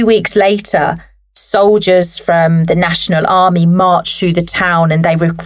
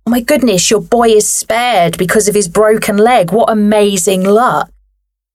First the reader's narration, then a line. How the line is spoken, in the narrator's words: the neighbours shouted